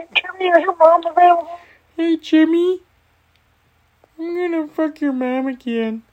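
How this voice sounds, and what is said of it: Cartoon character voice impression. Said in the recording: “doing an impression about Carl Wheezer”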